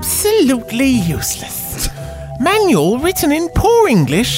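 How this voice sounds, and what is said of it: Usual voice. Nothing is said of it.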